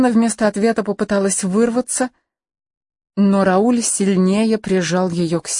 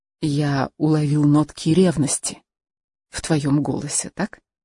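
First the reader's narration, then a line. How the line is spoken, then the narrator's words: Whispered. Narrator (Russian): Рауль прошептал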